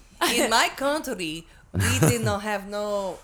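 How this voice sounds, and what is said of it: Put-on Russian-sounding accent. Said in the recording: “What even accent is that? ... It's like Russian.”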